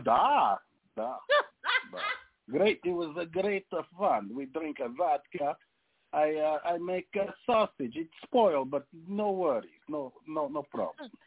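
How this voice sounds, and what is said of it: Put-on Russian accent. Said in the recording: “I've got Russian and Ukrainian friends. That is so good. ... Was that fun to do a different accent?”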